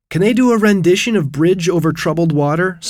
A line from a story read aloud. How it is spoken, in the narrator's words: blurted out